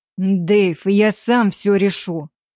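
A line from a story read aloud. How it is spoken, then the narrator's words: Grim, clipped. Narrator (Russian): мрачно отчеканил Уильямс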